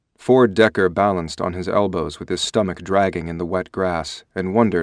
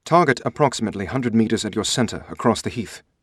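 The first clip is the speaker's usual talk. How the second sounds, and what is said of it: Oxford-educated British accent. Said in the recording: “Harlan Ross's Oxford-educated British accent cut across the still night.”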